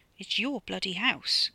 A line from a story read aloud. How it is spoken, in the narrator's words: murmured